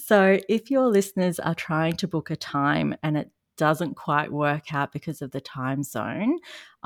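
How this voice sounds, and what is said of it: Australian accent. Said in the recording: “if you haven't noticed from my accent, I am in Australia”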